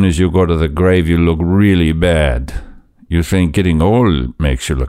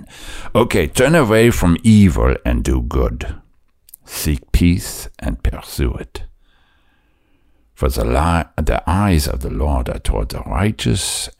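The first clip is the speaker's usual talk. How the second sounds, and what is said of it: Put-on German accent. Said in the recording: “I'm morphing into a different accent. ... We are talking in a different way now. Now we're talking with another German.”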